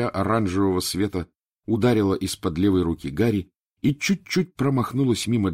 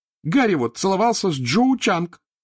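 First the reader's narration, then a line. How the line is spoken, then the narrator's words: Shouting, near tears. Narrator (Russian): выкрикнула Джинни, чуть не плача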